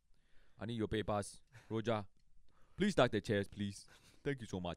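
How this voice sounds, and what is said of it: Thick Ghanaian accent impression. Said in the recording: “very thick accent. He was from Ghana ... does a great impression ... he sounds just like that”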